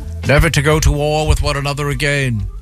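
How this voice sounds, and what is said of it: Weak British accent, Neville Chamberlain. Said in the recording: “That's kind of a weak British accent out of you”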